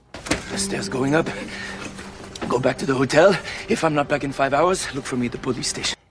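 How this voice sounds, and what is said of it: Put-on French accent, fairly good. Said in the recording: “French accent... this is pretty good. There are definitely things that could be improved... Sometimes he's got a French uvular”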